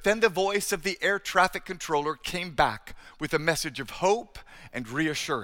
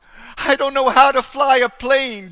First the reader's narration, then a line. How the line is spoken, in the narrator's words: Darren cried